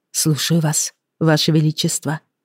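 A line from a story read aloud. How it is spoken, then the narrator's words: Calm. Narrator (Russian): сказала спокойно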